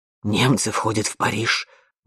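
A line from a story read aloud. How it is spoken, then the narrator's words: Breathed out. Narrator (Russian): выдохнул он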